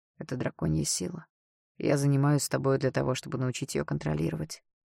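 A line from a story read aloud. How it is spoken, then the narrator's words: Calm reply. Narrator (Russian): спокойно ответил Даррелл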